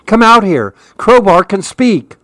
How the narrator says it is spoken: I yelled

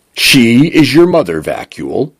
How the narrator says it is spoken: library said

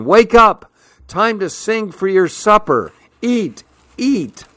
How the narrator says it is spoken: shouting

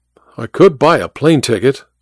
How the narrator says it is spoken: I said

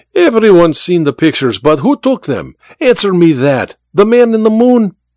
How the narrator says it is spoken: Vera laughed at the memory

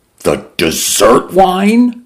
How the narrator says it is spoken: Mendoza cried

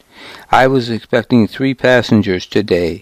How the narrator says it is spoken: he said

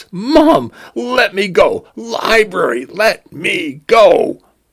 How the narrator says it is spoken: he cried

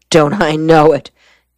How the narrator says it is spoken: Gerald Shore exclaimed

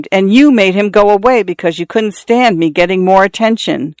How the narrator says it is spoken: Xiao Shui screamed

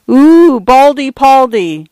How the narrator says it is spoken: some idiot girl had exclaimed

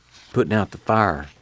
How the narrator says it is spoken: Muley whispered

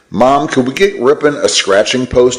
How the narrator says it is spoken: he asked

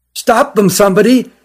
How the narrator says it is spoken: cried the one who found them

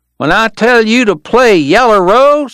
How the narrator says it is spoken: the kid was yelling

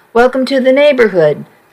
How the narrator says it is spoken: I said

